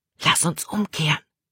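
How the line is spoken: Whispered. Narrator (German): flüsterte Caleb

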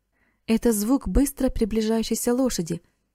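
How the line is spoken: Exclaiming. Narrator (Russian): воскликнул Эрик

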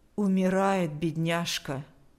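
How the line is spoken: Even-toned voice. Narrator (Russian): сказала она ровным голосом

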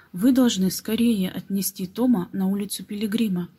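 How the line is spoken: Plain. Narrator (Russian): сказал Нед

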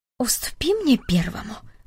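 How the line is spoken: Old man whispering. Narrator (Russian): прошептал дедушка Дик

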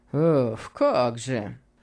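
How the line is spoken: Mumble. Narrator (Russian): пробормотал его услужливый приятель

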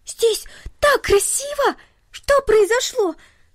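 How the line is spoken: Delighted girl exclaiming. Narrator (Russian): воскликнула в восторге девочка

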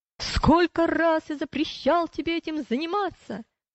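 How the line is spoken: Shouting. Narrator (Russian): Вредитель, увидев пилигримов, закричал

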